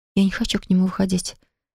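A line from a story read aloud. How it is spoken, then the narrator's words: Quiet whisper. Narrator (Russian): тихо прошептала Полина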